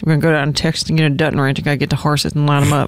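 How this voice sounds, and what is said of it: Mumbly character voice, poor enunciation. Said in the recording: “She like doesn't enunciate anything. It's like me on a tired like Saturday morning ... my Teeter voice”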